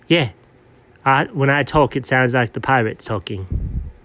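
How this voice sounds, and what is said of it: Badly done British pirate accent. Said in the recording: “A pretty terribly done British accent? ... Terribly done British accent”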